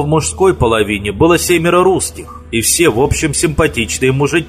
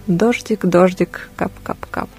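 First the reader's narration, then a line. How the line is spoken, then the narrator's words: Muttered. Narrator (Russian): пробормотала она по-русски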